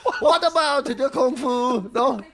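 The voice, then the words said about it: Borat-style comedic accented voice. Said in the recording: “When did he turn into Borat? ... That's a very good impression, I thought ... Jean-Claude Van Borat there ... legendary impression”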